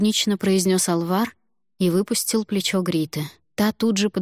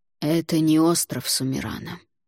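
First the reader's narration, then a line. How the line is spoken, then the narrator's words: Weary. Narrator (Russian): устало произнес тот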